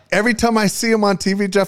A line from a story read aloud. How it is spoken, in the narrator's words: I laugh